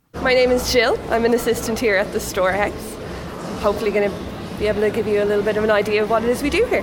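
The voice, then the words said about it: Irish Dublin accent. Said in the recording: “your accent ... I'm guessing you are an Irish woman ... I am Dublin born and bred.”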